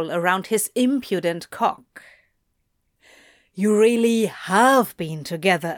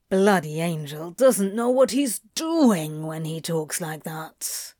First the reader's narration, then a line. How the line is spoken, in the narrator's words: he growled